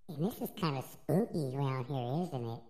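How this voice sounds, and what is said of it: Baby voice. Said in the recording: “I'm recording with my baby voice.”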